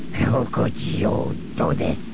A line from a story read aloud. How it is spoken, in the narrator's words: He snarled at Zuckus